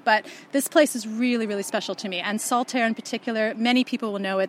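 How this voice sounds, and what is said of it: Canadian accent. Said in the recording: “you can't tell from my accent at all, but I am a Yorkshire lass ... hence I have a Canadian accent and not a Yorkshire one”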